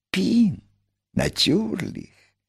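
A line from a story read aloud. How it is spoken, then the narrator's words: Whisper. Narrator (Russian): прошептал великий механик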